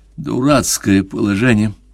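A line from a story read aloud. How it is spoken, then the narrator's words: Resigned forced words. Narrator (Russian): Обреченным тоном выдавил он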